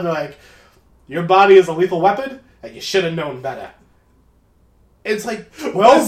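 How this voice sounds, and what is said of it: Southern judge voice. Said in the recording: “That's my judge. That's my southern judge. ... Sound like a New Jersey mobster.”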